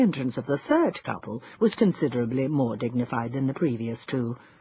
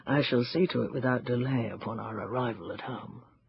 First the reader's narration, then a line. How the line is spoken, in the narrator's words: murmured huskily